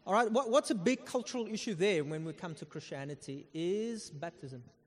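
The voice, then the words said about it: Afrikaner South African accent. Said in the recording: “I'm Afrikaner, if you can hear from my accent. Yes, you can.”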